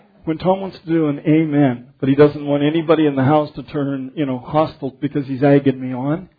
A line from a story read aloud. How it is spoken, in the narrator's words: he laughs that cute little laugh